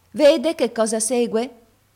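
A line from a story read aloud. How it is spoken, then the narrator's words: Sour voice. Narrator (Italian): venne fuori a dire la cameriera con la sua voce agra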